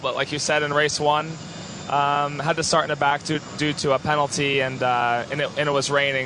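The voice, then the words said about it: Hoarse, fading voice. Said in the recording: “Pardon me if I'm losing my voice a little bit.”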